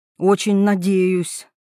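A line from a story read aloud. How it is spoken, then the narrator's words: Grumbling mutter. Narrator (Russian): буркнула Светлана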